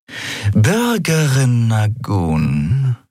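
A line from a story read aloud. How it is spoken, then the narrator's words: Purring. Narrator (German): schnurrte sie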